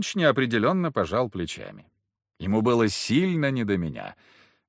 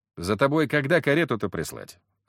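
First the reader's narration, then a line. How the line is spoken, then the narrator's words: Plain. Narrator (Russian): спросил я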